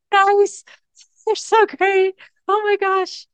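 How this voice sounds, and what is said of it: Happy, excited voice. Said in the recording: “Did I sound happy?”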